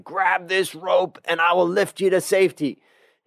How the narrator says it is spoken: the pilot shouted

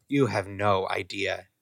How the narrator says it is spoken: Draco sighed happily

